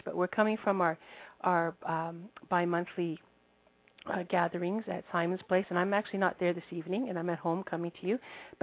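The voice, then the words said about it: Weak, congested voice. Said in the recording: “I have a bad cold, so my voice isn't there very much”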